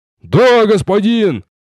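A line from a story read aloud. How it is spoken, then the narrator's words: Barked in unison. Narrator (Russian): Дружно рявкнули все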